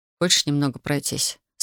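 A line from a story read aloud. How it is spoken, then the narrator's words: Plain. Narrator (Russian): спросил Александр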